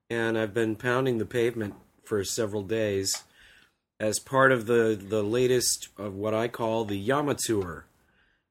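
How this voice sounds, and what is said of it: Raw, hoarse voice. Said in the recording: “My voice is a little raw right now because it's kind of cold here.”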